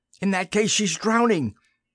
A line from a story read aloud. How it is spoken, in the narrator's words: Simon cried